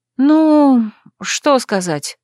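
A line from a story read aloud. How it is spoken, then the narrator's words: Drawling. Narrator (Russian): протянула я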